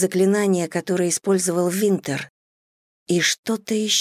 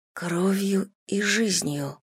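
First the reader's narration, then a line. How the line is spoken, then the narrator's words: Whisper. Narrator (Russian): прошептала я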